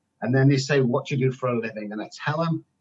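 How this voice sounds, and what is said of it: English accent. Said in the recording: “because of my accent, somebody will always go, oh my goodness, where are you from? You're from England?”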